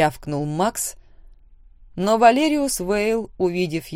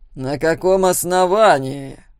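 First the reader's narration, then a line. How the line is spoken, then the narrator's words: Loud question. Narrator (Russian): громко спросил Тед Фуллагер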